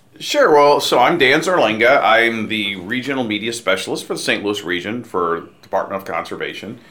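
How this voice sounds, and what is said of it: Strong broadcaster's radio voice. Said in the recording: “You got a radio voice, man. You got like a... Who else has pipes like that for the Cardinals? ... Danny Mac.”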